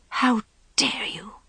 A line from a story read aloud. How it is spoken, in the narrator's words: she began in a furious whisper